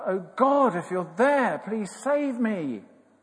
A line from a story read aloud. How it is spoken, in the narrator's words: he called out